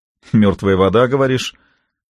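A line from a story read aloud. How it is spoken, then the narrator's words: Skeptical snort. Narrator (Russian): хмыкнул полковник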